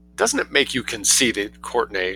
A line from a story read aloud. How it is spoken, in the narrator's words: she asked